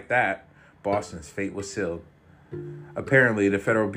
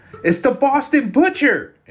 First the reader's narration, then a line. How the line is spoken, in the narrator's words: He screamed